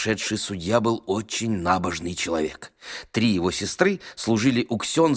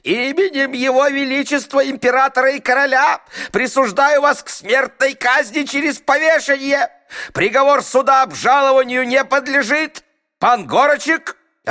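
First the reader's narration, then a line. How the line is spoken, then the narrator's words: Frantic agitated yell. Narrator (Russian): Он так разволновался, что вдруг лишился рассудка и заорал на подсудимого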